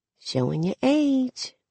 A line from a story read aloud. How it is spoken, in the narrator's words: I whisper